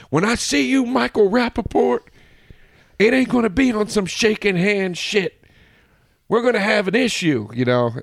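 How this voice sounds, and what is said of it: Imitates another person's voice. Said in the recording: “that voice you just did ... I was trying to do a Kanye impression”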